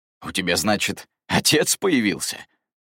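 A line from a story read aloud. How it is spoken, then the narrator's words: Laughing male voice. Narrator (Russian): хохотнул Эдвард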